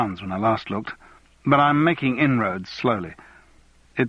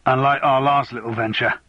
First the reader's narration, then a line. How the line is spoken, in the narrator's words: Ronnie grunted